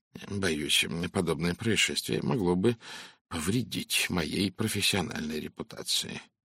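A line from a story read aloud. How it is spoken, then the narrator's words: Gloomy. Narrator (Russian): мрачно произнес Пуаро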